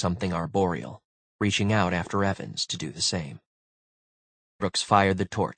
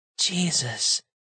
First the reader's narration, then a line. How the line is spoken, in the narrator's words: she breathed